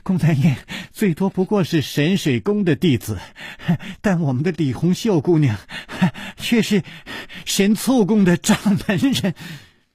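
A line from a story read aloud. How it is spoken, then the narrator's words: Panting laughter. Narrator (Chinese): 宋田儿 喘着气笑着说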